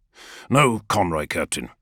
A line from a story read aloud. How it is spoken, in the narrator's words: Loken snaps